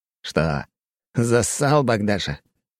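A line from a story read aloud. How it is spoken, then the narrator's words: Mocking snort. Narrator (Russian): хмыкнул Греков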